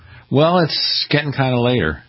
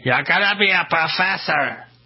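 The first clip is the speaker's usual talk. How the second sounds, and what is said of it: Bad imitation of a mailman. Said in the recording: “Very bad imitation.”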